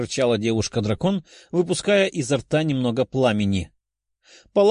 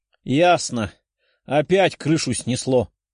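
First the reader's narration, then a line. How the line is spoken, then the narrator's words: Sighing. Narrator (Russian): вздохнула синеволосая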